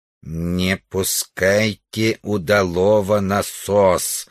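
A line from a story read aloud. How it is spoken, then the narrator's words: Distant strange alien-accented voice. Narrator (Russian): ответил странного тембра далекий голос с инопланетным акцентом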